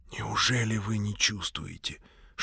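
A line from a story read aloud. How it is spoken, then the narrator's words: Whisper. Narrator (Russian): шепнул он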